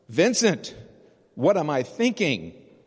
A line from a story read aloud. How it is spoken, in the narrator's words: he shouts out